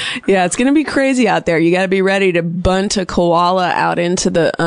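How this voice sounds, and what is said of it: Usual voice. Nothing is said of it.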